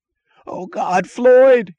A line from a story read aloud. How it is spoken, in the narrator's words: he screamed